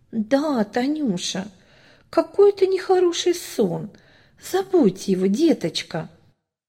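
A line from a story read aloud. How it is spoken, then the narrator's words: Gentle coaxing old woman. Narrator (Russian): ласково уговаривала старушка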